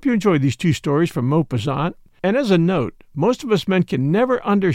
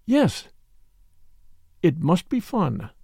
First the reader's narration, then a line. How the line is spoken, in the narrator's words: She murmured in a dreamy voice